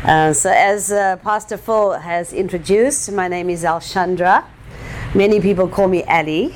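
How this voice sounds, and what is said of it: Speaks with a noticeable accent. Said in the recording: “I have an accent, so I know that doesn't help.”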